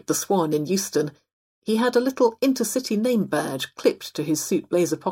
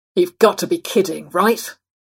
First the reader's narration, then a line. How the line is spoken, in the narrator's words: He growled